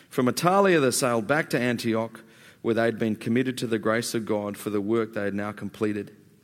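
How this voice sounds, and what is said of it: Speaks with a noticeable accent. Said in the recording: “So sorry about the accent”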